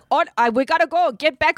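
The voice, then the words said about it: Attempted Zimbabwean African accent. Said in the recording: “I can't do an African accent. ... It was Zimbabwe. ... It was a valiant effort.”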